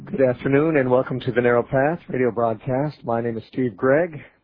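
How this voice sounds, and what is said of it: Congested, altered voice. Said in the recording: “My voice is still a little affected from allergies ... I got a little congested, and my voice has been affected ever since ... if you don't recognize my voice”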